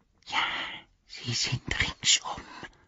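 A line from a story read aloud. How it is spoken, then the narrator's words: Whisper. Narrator (German): flüsterte er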